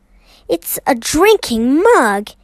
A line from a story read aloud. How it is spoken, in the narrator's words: he exclaimed, his face lighting up with pleasure